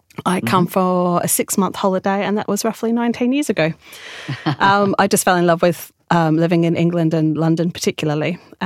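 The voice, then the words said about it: Australian accent. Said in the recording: “you hear from my accent, I'm from Australia originally”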